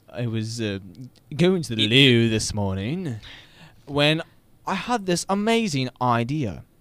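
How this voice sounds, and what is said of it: Put-on British accent. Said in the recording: “I like the British accent. Good touch.”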